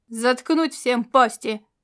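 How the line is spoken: Sergeant's bark. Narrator (Russian): рявкнул сержант

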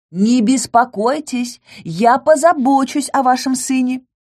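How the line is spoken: Parting shout. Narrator (Russian): прокричала напоследок

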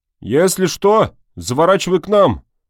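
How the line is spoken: Gruff farewell bark. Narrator (Russian): рявкнул танк на прощание

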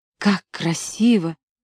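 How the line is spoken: Girl's muffled whisper. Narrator (Russian): стоявшая рядом со мной девушка шептала, прижавшись лицом к холодной плите

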